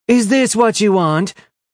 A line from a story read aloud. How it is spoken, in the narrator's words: yelled